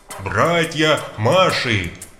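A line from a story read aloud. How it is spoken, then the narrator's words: Roaring. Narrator (Russian): взревел копатель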